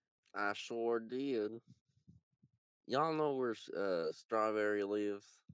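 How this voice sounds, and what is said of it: Put-on country cowboy accent. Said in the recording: “I just wanted to start speaking in a country accent because you did... the cowboy is spreading”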